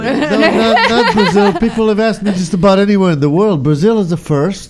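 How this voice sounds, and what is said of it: Hard-to-place foreign accent. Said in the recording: “The one with the accent... You got the accent... nobody can figure out my accent exactly. I can't figure it out myself, what kind of a friggin' accent I have”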